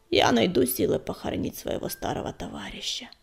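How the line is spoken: Creaky voice. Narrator (Russian): проскрипел Безух

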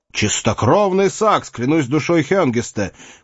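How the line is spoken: Shouting. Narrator (Russian): крикнул Седрик

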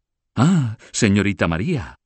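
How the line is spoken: Exclaiming. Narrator (Spanish): exclamó Ricardo, el primer empleado

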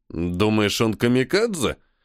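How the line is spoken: Snorted. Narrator (Russian): хмыкнул полковник

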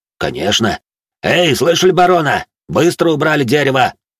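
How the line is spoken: Barked order. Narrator (Russian): гаркнул он на своих рабочих

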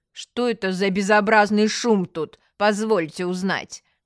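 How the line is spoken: Displeased woman asking. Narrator (Russian): Женщина недовольным тоном спросила

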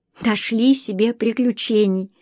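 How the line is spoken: Dismayed sigh. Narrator (Russian): сокрушенно вздохнула Лариса

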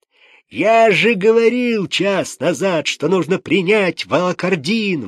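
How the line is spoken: Father yelling. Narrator (Russian): вопил отец

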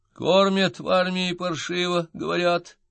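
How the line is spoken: Persistent whining. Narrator (Russian): упорно скулил мой соратник

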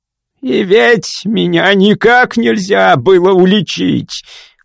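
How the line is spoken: Hoarse wailing. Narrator (Russian): хрипло вопил Граймс

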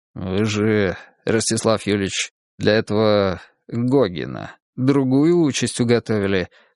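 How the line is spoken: Plain. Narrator (Russian): сказал кардинал

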